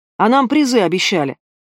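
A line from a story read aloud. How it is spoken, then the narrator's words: Shouted from the back, young man. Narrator (Russian): выкрикнул из задних рядов какой-то молодой работяга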